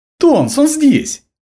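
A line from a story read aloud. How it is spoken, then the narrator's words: Joyful excited shout. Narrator (Russian): Радостно, возбужденно крикнул он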